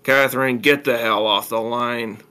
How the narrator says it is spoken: Walter growled

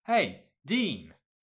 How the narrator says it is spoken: called out

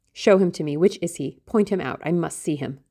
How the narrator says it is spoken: exclaimed

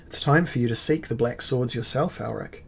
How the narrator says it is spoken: said Arioch

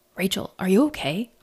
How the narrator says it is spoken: Archie asked

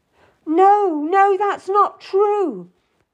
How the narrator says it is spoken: I cried out

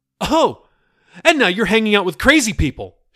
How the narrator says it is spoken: she cried

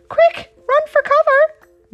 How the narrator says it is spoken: cried

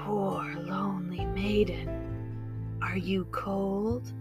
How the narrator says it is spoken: His raspy voice sounded like the dry wind as he whispered to her

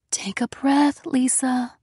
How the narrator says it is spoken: she said softly

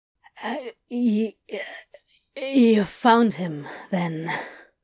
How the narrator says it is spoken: He wheezed painfully

